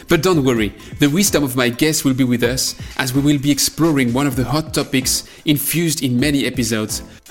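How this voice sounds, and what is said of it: French accent. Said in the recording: “my French accent.”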